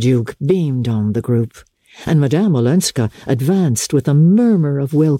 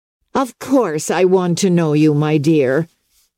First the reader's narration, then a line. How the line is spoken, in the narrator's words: cried Mrs